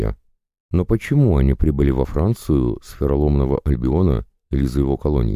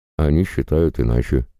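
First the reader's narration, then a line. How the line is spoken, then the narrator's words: Calm. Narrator (Russian): спокойно ответил я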